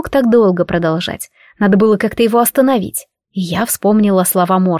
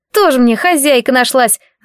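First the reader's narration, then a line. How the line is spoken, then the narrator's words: Grumbling reply. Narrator (Russian): заворчал Сильф в ответ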